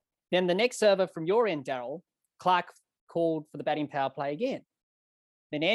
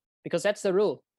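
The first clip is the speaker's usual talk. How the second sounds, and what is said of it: Imitated South African accent. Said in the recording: “That's my best South African accent there”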